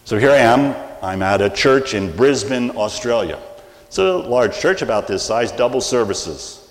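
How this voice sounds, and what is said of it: American English accent. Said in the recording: “I speak American, not English.”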